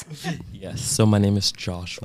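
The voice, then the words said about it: Radio announcer style voice. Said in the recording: “Radio voice.”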